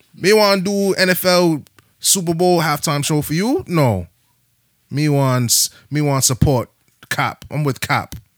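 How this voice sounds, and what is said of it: Choppy Bajan West Indian accent. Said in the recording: “I'm gonna say how the Bajans say it. My West Indian accents are real choppy. I used to be real good at it.”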